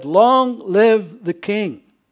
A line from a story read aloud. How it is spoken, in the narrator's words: So all the people shouted and said